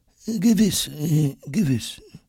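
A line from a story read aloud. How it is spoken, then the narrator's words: Murmuring. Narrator (German): murmelt Dr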